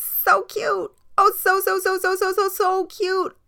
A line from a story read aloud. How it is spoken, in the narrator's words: the girl ... screaming